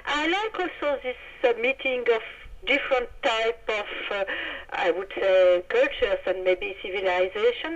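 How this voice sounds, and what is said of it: French-accented English. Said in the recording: “my awful French accent”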